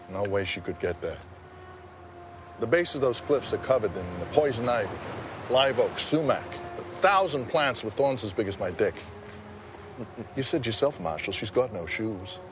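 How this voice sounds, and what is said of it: Maine accent. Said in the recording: “I like his accent. It's great. I mean, he's Maine. You know, it's up in Maine.”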